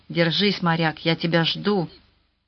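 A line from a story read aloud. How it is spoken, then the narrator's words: Whispered. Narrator (Russian): Сьюзан шептала ему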